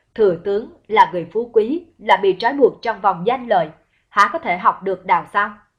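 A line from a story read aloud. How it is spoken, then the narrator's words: Laughing loudly. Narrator (Vietnamese): Tả Từ cười lớn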